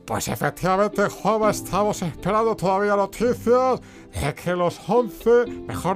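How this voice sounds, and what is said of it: Imitates a sports radio commentator. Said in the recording (Spanish): “la imitación de Manolorama”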